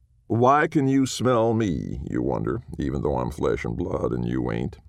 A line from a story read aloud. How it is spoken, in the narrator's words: The someone chuckled